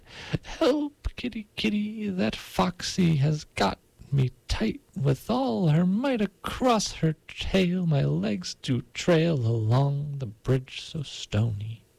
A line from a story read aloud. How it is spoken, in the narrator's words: the rooster cried